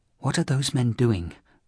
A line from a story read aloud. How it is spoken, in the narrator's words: whispered the priest